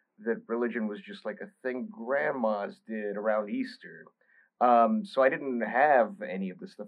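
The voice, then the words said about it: Thick Bulgarian accent. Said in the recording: “I was born in Bulgaria, which is why I have this weird name and this thick accent.”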